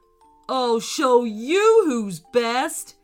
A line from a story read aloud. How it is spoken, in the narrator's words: he growled